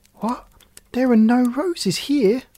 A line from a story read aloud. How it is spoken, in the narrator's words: cried Gerda